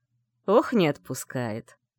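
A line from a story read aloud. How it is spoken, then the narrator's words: Laughing. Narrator (Russian): рассмеялся Грей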